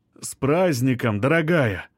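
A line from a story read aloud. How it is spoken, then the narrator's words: Solemn. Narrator (Russian): торжественно начинает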